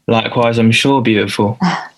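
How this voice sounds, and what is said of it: Fake British accent. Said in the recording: “British rocker ... Accent's fake.”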